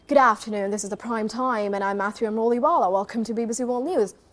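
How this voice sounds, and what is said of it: Imitated British newsreader accent. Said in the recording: “on one channel on BBC, there is British accent”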